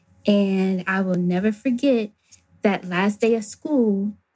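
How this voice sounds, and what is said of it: Choked-up, emotional voice. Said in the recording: “I get a little choked up.”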